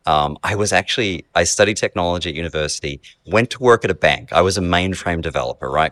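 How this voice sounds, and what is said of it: Australian accent. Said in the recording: “So Australian, you can hear the accent.”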